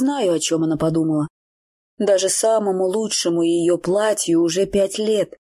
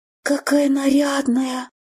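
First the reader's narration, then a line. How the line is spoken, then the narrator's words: Awed breathy exclamation. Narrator (Russian): Благоговейно выдохнула Элен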